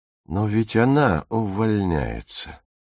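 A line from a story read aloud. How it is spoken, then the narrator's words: Quiet speech. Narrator (Russian): тихо сказала Фрида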